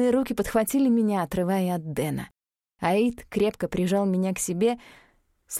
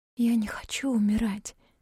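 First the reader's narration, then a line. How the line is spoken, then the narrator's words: Whisper. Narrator (Russian): прошептала Лу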